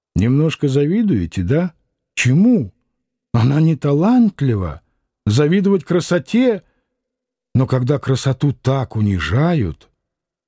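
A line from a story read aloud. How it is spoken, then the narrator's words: Almost tender question. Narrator (Russian): он спросил почти ласково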